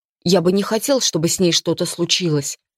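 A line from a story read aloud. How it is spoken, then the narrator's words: Quiet. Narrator (Russian): тихо проговорил Лориэль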